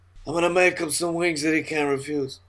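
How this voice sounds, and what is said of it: Poor Godfather mobster voice impression. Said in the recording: “That was a terrible Godfather impression.”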